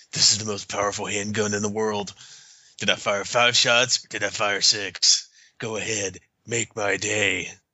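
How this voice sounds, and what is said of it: Imitates another person's voice. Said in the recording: “That's a pretty good Clint impression, ... That was good.”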